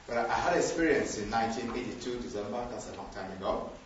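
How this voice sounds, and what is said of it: Speaks with a noticeable foreign accent. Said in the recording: “whether you understand my accent.”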